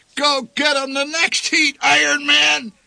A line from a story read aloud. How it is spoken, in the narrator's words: bellowed the old man